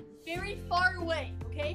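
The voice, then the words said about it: Yelling, very loud voice. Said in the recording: “why are you yelling so loud? ... you're yelling still. You gotta, like, do your normal inside voice.”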